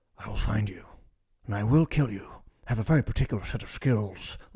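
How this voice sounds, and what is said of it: Liam Neeson impression. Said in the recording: “Let me know if that's a good Liam Neeson impression.”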